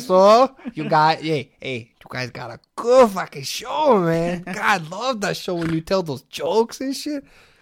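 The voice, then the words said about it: Put-on Mexican accent. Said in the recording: “in a Mexican voice”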